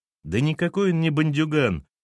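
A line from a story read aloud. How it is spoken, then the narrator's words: Cheerful protest. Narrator (Russian): весело запротестовал Сергей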